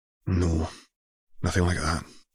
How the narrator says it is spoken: she sighed

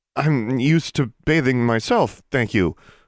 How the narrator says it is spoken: she stammered

